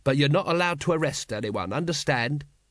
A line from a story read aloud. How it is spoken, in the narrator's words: he added quickly